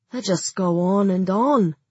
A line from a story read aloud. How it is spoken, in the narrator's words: said Harshaw wearily